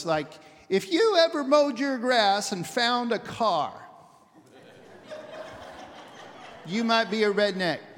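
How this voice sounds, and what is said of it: Lame Jeff Foxworthy impression. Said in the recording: “that really lame imitation of Jeff Foxworthy”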